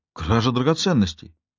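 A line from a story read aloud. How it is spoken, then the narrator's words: Exclaimed. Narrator (Russian): воскликнул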